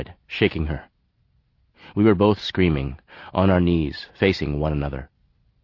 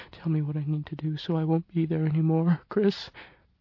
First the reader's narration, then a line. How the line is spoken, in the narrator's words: she mumbled, pressing her face into my arm